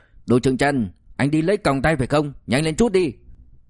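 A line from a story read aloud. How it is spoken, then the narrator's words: Eager curious call. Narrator (Vietnamese): Trong lòng ôm sự hiếu kỳ rất lớn, La Sâm Bình la lên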